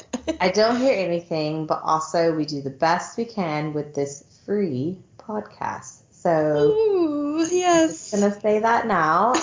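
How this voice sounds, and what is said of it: Slightly croaky voice. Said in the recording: “my voice is still a bit croaky. I had a cold”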